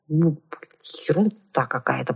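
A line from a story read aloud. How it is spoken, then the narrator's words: Muttered. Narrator (Russian): пробормотала я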